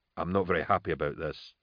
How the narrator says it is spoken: he said quietly

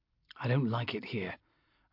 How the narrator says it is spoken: I said quietly to Castine

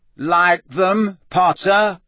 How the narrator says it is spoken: said Malfoy loudly

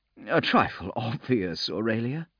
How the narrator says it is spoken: she laughed

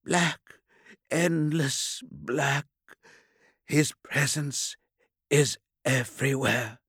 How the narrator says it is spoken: he whispered

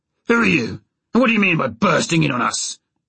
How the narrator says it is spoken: he demanded harshly

